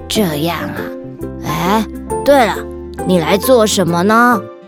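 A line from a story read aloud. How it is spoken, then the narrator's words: Old woman asking. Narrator (Chinese): 蜥蜴婆婆问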